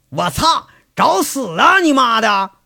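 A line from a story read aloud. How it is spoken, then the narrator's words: Shouting from window. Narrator (Chinese): 窗口伸出个脑袋喊着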